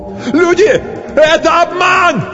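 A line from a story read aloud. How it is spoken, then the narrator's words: Desperate shout. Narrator (Russian): закричал кто-то отчаянно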